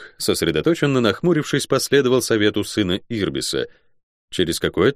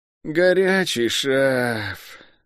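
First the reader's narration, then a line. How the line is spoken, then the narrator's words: Wistful drawling guard. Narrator (Russian): тоскливо протянул стражник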